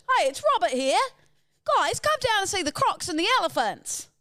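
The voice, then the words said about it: Attempted Australian accent, sounds New Zealand. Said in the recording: “That was very New Zealand. Do your best Australian accent. Oh, that was it.”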